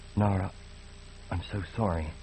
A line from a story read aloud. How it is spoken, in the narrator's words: he whispered